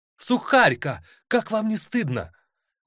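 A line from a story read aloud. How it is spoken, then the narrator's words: Exclaiming. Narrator (Russian): воскликнула она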